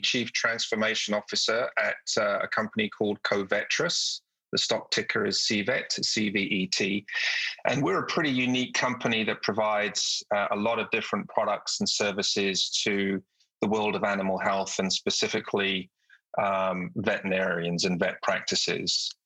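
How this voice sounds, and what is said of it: British accent. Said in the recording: “My journey through my career started in the UK, as you can probably tell from my accent.”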